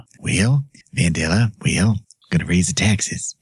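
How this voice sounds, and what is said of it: Imitates another person's voice. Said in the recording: “You just really wanted to do that impression.”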